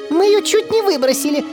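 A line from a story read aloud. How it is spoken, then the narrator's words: Squeaky shout. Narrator (Russian): выкрикнула писклявым голосом миссис Бегги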